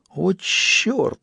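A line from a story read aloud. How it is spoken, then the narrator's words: Admiring exhale, clown. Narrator (Russian): восхищенно выдохнул паяц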